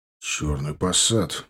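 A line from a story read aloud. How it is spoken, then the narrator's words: Muttering. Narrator (Russian): буркнул он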